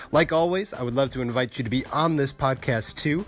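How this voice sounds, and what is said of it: Stuffy, congested voice. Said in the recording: “I came down with a cold ... the stuffiness of my voice”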